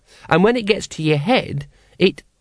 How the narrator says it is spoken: said the child happily

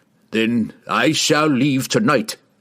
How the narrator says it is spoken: roared

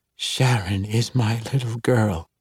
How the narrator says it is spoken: she whispered, and every word hurt

